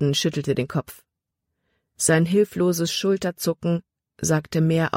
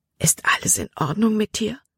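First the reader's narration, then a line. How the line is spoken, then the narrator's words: Whisper. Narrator (German): flüsterte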